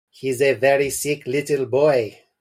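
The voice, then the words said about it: Put-on French accent. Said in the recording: “this is a French accent, right?”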